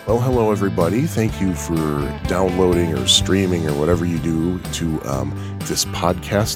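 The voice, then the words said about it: Congested, unhealthy-sounding voice. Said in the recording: “you could probably hear in my voice, I don't really sound healthy right now. I think I have some post-nasal drip going on ... the way my voice sounds”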